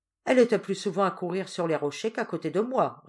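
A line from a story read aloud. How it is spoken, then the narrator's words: Curt retort. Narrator (French): répliqua sèchement la duègne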